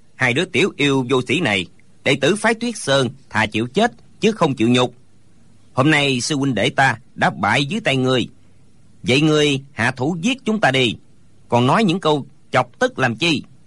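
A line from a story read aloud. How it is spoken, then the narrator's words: Angry scolding. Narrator (Vietnamese): Hô Diên Vạn Thiện tức giận mắng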